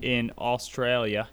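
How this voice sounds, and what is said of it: Bad put-on Australian accent. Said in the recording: “That was horrible accent. ... That was bad.”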